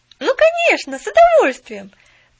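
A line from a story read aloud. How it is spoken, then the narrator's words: Quick eager exclamation. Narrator (Russian): Тут же воскликнула Поллианна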